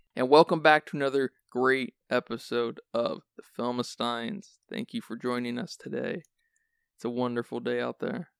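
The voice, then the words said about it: Sleepy, raspy voice. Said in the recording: “You sound so sleepy. ... do I have a raspy voice?”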